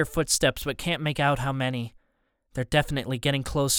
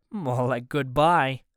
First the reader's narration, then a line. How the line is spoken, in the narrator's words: Phoenix says with a chuckle